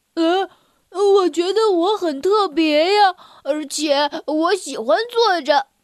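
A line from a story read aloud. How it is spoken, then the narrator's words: Exclaiming. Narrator (Chinese): 戴维感叹道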